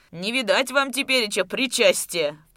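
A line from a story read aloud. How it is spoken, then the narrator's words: Shouted in mock horror. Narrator (Russian): в притворном ужасе закричал Куженков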